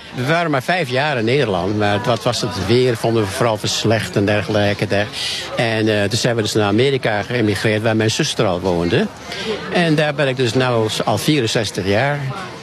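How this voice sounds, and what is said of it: Light American accent in Dutch. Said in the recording (Dutch): “ik hoor toch wel een licht accent als ik goed luister. Uit Amerika?”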